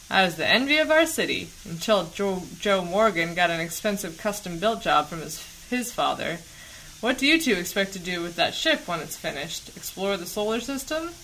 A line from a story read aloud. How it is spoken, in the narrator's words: He chuckled at his own crude joke